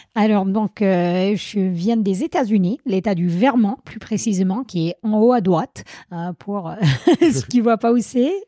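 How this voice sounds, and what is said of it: Slight American accent in French. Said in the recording (French): “On entend que tu as un petit accent.”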